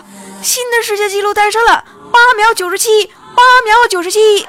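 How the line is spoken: Excited announcer shouting. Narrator (Chinese): 播音员激动大喊着

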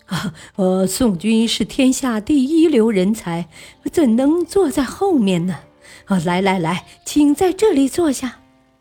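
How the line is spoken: Smiling, ingratiating. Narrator (Chinese): 张易之笑意满面

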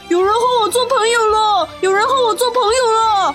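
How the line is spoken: Loud shouting. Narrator (Chinese): 他大声地喊道

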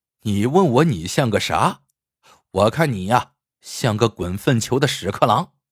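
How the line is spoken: Laughing heartily. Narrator (Chinese): 老臭哈哈大笑，说道

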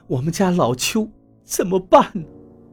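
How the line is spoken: Sobbing. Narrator (Chinese): 邱阿姨看见那个男人就呜呜地哭起来

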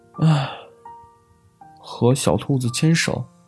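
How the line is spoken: Sighing. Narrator (Chinese): 小狐狸叹了口气

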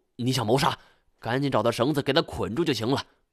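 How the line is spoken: Urgent sharp shout. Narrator (Chinese): 我见状急忙喝住

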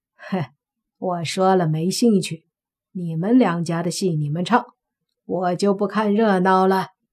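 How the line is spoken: Old man, laughing. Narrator (Chinese): 江老头笑道

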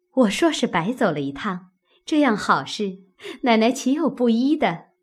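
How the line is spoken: Laughing. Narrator (Chinese): 笑道

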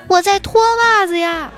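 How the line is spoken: Loud reply. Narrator (Chinese): 儿子同样大声回答

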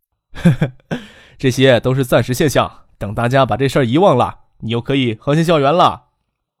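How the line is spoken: Hearty laughing, comforting. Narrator (Chinese): 张克哈哈大笑，笑着安慰他

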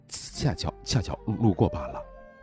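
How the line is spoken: Through gritted teeth. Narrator (Chinese): 丁不朽咬牙道

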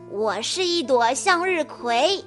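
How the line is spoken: Proud laughter. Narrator (Chinese): 斯坎普骄傲的哈哈哈笑着说

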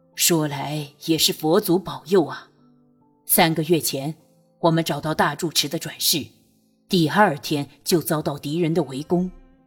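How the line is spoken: Sighing. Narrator (Chinese): 夏傲叹道

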